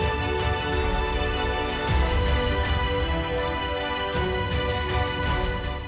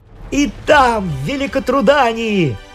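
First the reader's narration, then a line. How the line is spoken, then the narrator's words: Joyful shout. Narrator (Russian): Радостно закричал король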